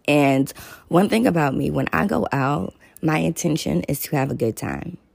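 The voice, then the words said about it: Slightly raspy voice. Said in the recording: “my voice is a little raspy ... So that's the raspiness.”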